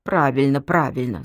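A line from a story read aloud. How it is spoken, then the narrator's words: Grumbling. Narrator (Russian): заворчал Жорик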